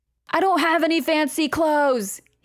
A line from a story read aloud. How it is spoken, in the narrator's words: he yelled downstairs